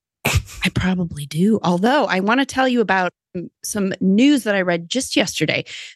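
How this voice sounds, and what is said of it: American Midwestern accent. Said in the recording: “my American Midwestern accent”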